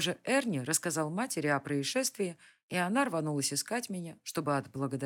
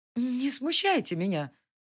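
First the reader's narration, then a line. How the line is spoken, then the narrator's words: Pleading. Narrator (Russian): Я практически взмолилась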